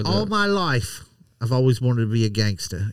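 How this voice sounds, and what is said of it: Put-on Irish gangster accent, unconvincing. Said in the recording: “what are you, an Irish gangster? ... That wasn't the right accent.”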